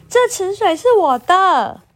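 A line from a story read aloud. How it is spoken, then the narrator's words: Loud shout. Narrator (Chinese): 小米大喊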